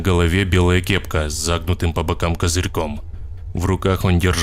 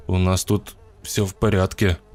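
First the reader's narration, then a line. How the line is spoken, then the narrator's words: Stammering. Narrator (Russian): заикаясь, сказал я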